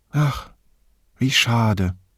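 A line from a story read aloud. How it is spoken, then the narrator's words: Sighing. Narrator (German): seufzte sie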